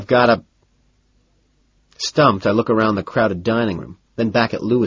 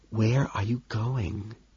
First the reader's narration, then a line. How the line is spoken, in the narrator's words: he whispers, bewildered